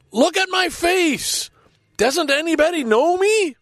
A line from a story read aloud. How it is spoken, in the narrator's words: cried